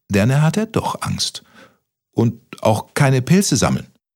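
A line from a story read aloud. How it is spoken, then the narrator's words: Stuttering. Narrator (German): stotterte Kaspermütze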